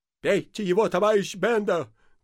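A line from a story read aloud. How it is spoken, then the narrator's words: Shouting, catching breath. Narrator (Russian): кричал с земли отдышавшийся Ипполит Матвеевич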